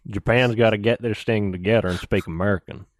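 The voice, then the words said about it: Put-on Texan accent. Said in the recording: “should have done it in the Texan accent”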